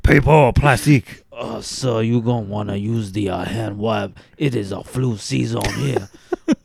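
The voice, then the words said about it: Put-on New Orleans accent. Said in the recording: “that's a fantastic fucking New Orleans accent”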